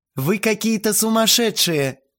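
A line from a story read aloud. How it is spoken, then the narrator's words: Moaning. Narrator (Russian): простонала Лариса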